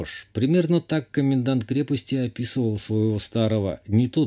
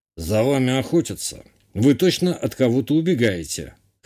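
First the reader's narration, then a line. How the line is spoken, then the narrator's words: Smuggler chief smirking. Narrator (Russian): хмыкнул глава местных контрабандистов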